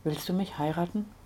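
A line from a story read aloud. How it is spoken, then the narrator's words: Quiet question. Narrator (German): fragte leise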